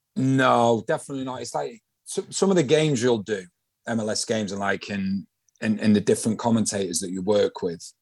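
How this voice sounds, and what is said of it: Northern English Manchester accent. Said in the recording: “I've got another mank on the show now... Northerners... It's nice to hear a familiar accent as well... you've not quite lost yours yet”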